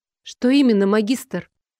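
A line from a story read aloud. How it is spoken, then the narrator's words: Calm, restrained question. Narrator (Russian): Я задала вопрос спокойно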